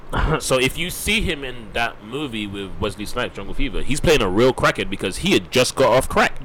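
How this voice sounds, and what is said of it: Thick accent. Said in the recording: “I guess my accent's thick.”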